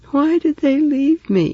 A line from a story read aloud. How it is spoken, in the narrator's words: he asked mournfully